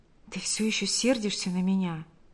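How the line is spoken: Whispered. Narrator (Russian): прошептал Павел

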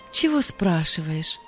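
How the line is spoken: Dejected voice. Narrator (Russian): сказал Павел упавшим голосом

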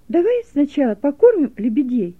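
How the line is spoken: Cheerful suggestion. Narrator (Russian): весело предложила Гелека

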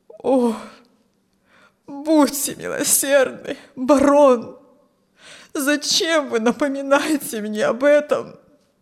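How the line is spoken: Old man's groan. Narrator (Russian): Застонал старик

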